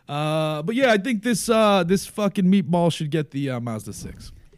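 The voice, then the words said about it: Put-on New York accent. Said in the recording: “That was New York accent, by the way.”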